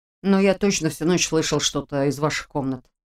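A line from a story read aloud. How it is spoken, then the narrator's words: Embarrassed mumble. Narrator (Russian): смущенно пробормотал Женя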